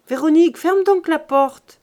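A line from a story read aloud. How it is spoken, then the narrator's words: Shouting. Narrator (French): cria-t-elle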